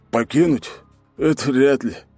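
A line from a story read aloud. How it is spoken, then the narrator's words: Sad smile. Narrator (Russian): грустно улыбнулся Василий Огнев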